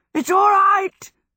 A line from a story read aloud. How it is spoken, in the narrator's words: gasped the horse